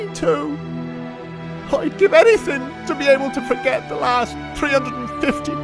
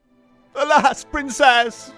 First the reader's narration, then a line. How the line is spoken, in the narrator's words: Axel sobbed